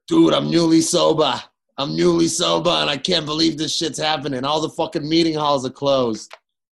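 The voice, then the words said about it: Put-on Boston accent. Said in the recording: “That's my best Boston accent. ... That's pretty good.”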